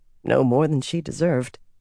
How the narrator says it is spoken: Swan muttered

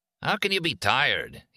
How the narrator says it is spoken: he asked her

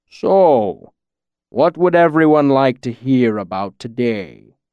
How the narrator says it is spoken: Scarpy rumbled, his deep voice rolling out like distant thunder

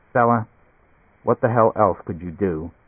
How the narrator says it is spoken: Leo said quietly

